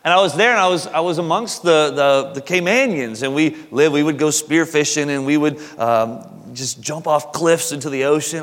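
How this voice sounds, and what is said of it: Southern American accent. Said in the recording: “I probably sound like I have a southern accent”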